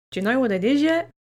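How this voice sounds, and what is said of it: Put-on Australian accent. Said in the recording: “that was my Australian accent.”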